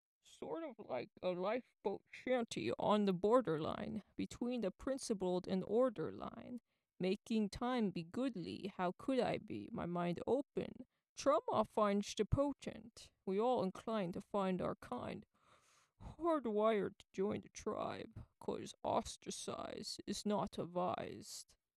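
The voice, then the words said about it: Imitation of Bane's voice. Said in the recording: “my poor Bane imitation ... Tom Hardy as Bane”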